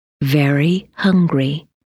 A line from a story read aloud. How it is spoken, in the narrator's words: They spelled out slowly